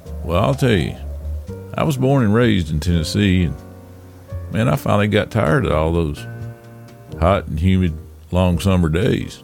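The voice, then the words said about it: Southern US accent. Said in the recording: “that guy with the southern accent”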